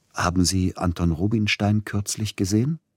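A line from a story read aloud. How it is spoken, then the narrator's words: Plain question. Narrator (German): fragte Zilotti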